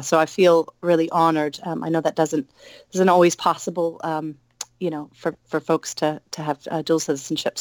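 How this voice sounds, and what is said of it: Somewhat unusual accent. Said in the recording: “a bit of a strange accent”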